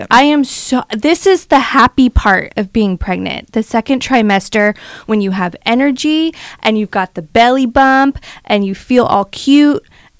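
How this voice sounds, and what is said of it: Excited, energetic voice. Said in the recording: “you can probably hear it in my voice. I am so excited ... Came in this morning with just a ton of energy.”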